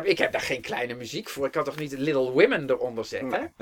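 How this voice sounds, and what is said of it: Heavy German accent imitating Steiner. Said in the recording (Dutch): “met zijn zware Duitse accent”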